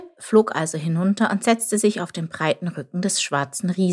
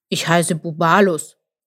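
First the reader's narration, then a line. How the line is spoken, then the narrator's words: Sleepy grumble. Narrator (German): brummte er mit geschlossenen Augen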